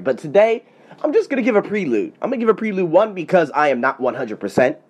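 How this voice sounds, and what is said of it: Stuffy, congested nasal voice. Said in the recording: “apologize for my voice ... Just some sinuses and things that are going on ... a stuffy-nosed African-American”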